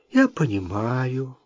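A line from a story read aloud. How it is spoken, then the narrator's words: Sighing. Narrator (Russian): вздохнула Джейн Клаузен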